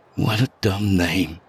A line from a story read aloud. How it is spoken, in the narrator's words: I muttered, unaware I'd spoken aloud